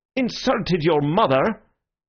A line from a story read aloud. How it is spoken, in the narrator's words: exclaimed the gentleman incredulously